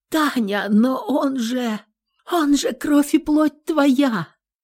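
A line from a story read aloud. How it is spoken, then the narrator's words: Shocked, bewildered whisper. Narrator (Russian): растерянно прошептала я, потеряв голос от потрясения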